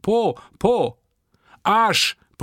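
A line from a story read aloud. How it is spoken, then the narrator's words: Bellowed back. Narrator (German): brüllte ich zurück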